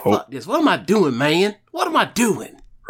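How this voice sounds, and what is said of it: Imitates another person's voice. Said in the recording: “my big Jeff Hardy accent ... It sounds remarkably a lot like AJ Styles”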